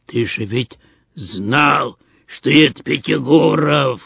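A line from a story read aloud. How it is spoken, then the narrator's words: Hoarse undertone. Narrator (Russian): хрипел через минуту и Стас Спиридонович полголоса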